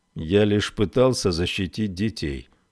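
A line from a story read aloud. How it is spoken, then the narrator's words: Muffled, hollow. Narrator (Russian): глухо произнес Долан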